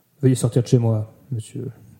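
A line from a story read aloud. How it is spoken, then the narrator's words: Icy tone. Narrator (French): dit Arthur d'un ton glacial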